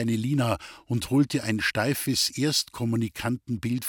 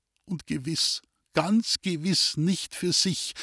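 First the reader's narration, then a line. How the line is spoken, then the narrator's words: Woman sobbing. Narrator (German): schluchzte die Frau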